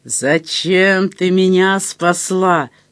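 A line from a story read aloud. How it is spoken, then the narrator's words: Slow, deliberate hiss. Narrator (Russian): медленно с расстановкой прошипела дама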